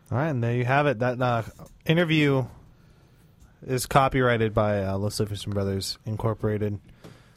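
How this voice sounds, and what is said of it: Droll Inside the Actor's Studio host. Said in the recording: “That was my impersonation of like a really droll ... like interview ... I was kind of thinking like inside the actor's studio when I was doing that.”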